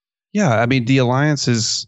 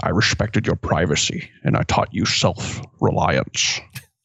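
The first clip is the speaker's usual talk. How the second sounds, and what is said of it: Bad impression of another person's voice. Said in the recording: “here's another bad impression for you... Sean Connery tells Indy”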